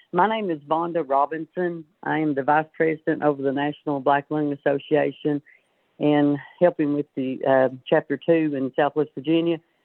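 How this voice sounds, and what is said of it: Sick-sounding, impaired voice. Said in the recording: “You'll have to excuse my voice. I have been sick.”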